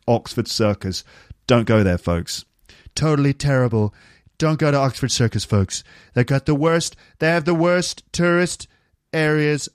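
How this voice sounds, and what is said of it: Imitates another person's voice. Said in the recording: “that Trump impression”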